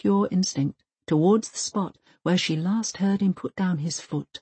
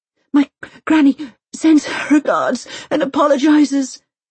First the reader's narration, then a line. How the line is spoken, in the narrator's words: Elsa pants